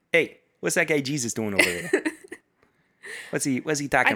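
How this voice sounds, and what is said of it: Put-on New York accent. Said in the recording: “He has a New York accent. ... You cannot tell me that you did not think that Zacchaeus had a New York accent.”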